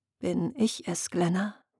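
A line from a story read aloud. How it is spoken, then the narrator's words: Quiet question. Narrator (German): fragte sie leise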